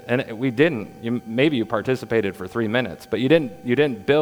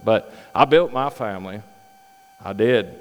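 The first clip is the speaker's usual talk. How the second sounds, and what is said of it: Put-on Southern US accent. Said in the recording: “I picked up a Southern accent.”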